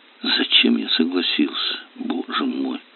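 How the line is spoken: Muttered. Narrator (Russian): пробормотал Кирилл

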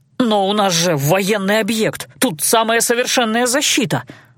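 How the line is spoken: Breathed out. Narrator (Russian): выдохнул Герон

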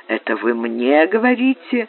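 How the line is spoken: Blind man's soft question. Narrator (Russian): Слепой спросил Франка мягким тоном

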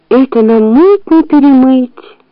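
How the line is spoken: Sighing. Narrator (Russian): вздохнула Муми

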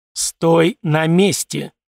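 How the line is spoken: Cold, through teeth. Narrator (Russian): холодно процедил я

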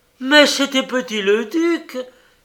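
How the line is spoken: Exclaimed. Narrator (French): s'écria Makoko

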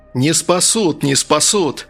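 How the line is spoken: Sudden yell. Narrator (Russian): внезапно заорал Сирадж

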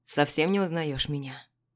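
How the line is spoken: Plain. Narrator (Russian): спросил он

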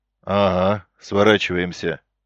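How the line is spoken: Grim confirmation. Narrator (Russian): мрачно подтвердил тот

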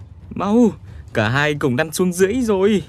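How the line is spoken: Crying out. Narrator (Vietnamese): Minh Thúc kêu lên

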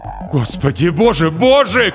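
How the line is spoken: Shout. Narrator (Russian): крикнул Вагнер

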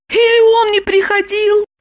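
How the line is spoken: Confused mumble. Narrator (Russian): Растерянно промямлила она

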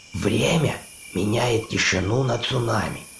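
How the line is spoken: Muttered. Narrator (Russian): пробормотала байкерша

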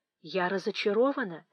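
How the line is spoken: Quiet speech. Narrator (Russian): тихонько сказала Фанни Эдмонту

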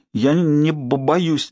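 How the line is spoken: Trembling forced words, then sobbing. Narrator (Russian): дрожащими губами выдавила она и разрыдалась

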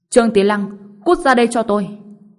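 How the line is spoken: Shouted through gritted teeth. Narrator (Vietnamese): Dương Thiên Hóa nghiến răng hét lên

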